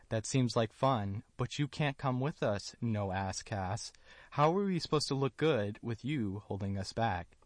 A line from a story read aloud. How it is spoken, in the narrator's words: they laughed at her, and they told her